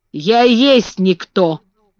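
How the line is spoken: Rough old man. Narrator (Russian): грубо сказал старый Бен

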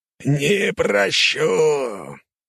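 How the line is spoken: Growling. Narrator (Russian): прорычал Издрасиль

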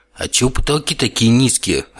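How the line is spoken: Irritated question. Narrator (Russian): раздраженно спросил я

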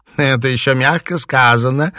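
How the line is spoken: Laughing. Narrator (Russian): засмеялась Сюзанна де Виль

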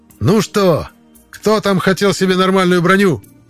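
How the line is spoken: Loud shout over battle noise. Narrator (Russian): Громко закричал я, чтобы перекричать звуки боя

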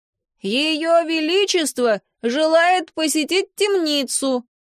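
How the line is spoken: Loud bark. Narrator (Russian): гаркнул

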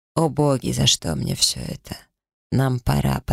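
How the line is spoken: Hurried, indifferent tone. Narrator (Russian): поторопил меня Зип все таким же равнодушным тоном

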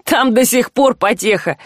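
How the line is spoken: Nasty giggling. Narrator (Russian): с гнусным хихиканьем сообщил вор

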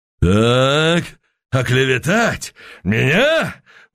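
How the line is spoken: Shouting out. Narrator (Russian): выкрикнул Быков

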